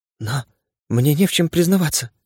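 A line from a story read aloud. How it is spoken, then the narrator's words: Whisper. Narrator (Russian): прошептала Анна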